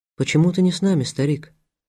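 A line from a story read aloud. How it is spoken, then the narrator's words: Plain. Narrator (Russian): спросила Мария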